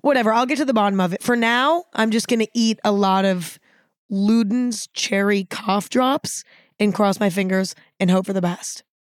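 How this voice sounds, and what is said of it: Losing voice, strained hoarse speech. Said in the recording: “Now it's gone again. I think there's something wrong with my vocal cords ... how often I lose my voice.”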